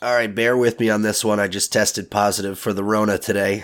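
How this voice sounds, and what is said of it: Slightly rough voice. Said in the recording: “my voice is a little rough”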